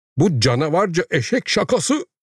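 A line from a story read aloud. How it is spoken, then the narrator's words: Director cried out. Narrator (Turkish): diye haykırdı müdür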